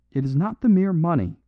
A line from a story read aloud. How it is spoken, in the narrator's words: he cried